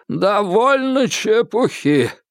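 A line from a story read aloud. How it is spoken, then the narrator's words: Hoarse voice. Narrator (Russian): хрипло проговорил он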